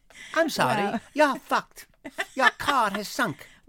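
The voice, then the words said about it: Poor Geico gecko impression. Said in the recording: “Geico. It's the gecko. ... Not a good impression.”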